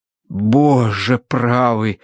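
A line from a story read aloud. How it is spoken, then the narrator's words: Breathless exclamation. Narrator (Russian): выдохнул преподобный мистер Арбитидж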